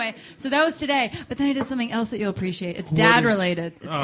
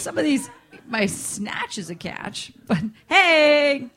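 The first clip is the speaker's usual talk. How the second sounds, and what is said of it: Weird put-on accent. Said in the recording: “What weird accent? ... What weird accent was that?”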